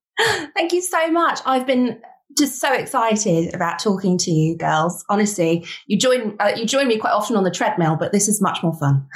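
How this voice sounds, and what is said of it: Speaks with a non-local accent. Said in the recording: “now that you're here with your accent”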